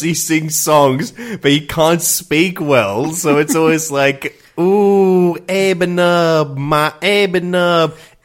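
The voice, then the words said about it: Imitates a character's garbled singing voice. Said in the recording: “That is a good impression.”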